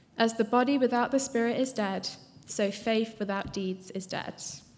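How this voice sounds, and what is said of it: English accent. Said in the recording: “It's a great English accent.”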